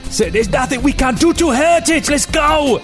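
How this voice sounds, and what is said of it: Yelling. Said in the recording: “He's yelling back over his shoulder.”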